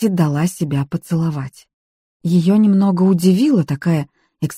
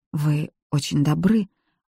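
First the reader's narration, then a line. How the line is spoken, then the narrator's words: Barely audible voice. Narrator (Russian): проговорила она еле слышно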